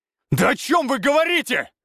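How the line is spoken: Growling reply. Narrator (Russian): зарычал в ответ

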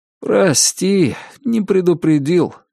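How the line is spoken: Guilty interruption. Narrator (Russian): виноватым голосом перебил Артем

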